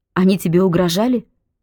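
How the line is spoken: Quick question. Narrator (Russian): быстро спросила Белка

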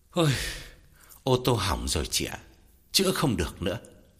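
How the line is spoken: Long weary sigh. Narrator (Vietnamese): Gã thở dài thườn thượt, bảo Lam

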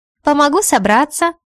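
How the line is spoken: Laughing reply. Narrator (Russian): Смеясь, отвечает Леська

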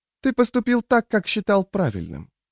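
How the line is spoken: Soft motherly reply. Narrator (Russian): мягко отозвалась мать

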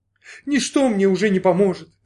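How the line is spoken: Sobbing. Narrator (Russian): зарыдала девушка

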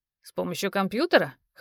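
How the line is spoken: Young man snorting. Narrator (Russian): хмыкнул парень

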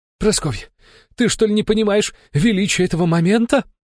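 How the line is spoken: Loud joyful shouting. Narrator (Russian): радостно выкрикивал громкий мужик

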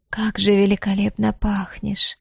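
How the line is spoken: Drawling. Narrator (Russian): протянула она

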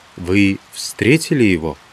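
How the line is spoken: Quiet question. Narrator (Russian): тихо ответил Иван и спросил

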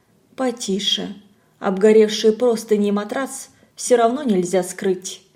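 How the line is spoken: Calm. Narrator (Russian): Надя спокойно сказала

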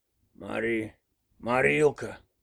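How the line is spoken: Mumbled. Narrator (Russian): промямлил внук

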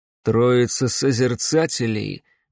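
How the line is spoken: Grim smirk. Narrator (Russian): мрачно усмехнулся барон Клайд

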